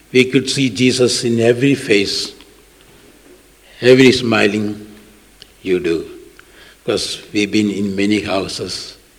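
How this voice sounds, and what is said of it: Strong Indian accent in English. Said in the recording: “from India. My English is very bad and my accent is very bad”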